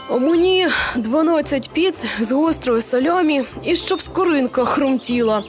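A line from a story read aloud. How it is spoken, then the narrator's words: Flamethrower grumbling. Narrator (Ukrainian): буркнув вогнемет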